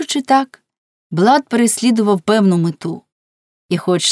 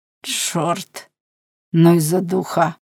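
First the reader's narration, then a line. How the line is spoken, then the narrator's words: Muttering. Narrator (Ukrainian): пробурмотів він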